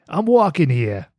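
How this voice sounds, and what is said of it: Put-on Boston accent. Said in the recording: “from Boston ... It's his Boston accent.”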